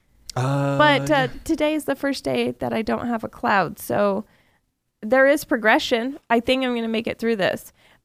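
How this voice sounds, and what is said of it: Lower-register, sick-sounding voice. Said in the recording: “I'm sick too, by the way, if my voice is a little lower register.”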